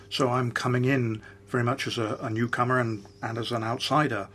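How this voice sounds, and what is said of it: Non-South African accent. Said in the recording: “as you can tell from my accent, I'm not South African”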